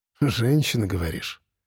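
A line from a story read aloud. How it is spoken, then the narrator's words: Sad smirk. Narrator (Russian): грустно усмехнулась Юля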